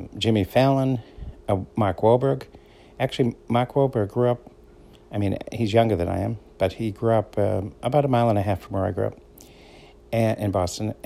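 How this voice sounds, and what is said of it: Boston accent. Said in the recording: “I have what's called a Boston accent. So I make, I say words a little different, like park. So that's P-A-R-K. It sounds like P-A-H-K”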